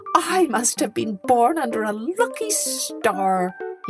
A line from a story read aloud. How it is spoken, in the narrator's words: cried, for joy